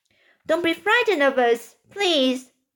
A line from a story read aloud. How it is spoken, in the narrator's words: James called out